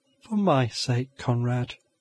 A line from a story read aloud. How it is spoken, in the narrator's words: whispered